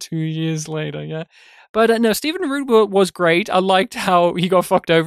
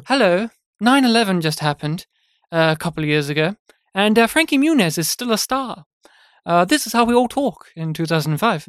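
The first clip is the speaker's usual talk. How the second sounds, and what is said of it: Posh, refined British-sounding voice. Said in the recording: “posh sounding ... this isn't me talking British, but it's more reformed it, way, refined way of speaking”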